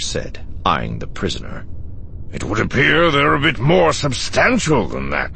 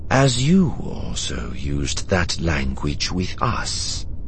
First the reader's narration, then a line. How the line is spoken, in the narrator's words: the prisoner said calmly, in Cybisti